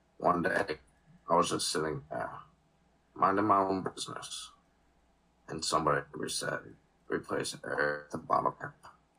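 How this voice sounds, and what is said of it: Morgan Freeman impression. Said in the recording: “do the Morgan Freeman voice”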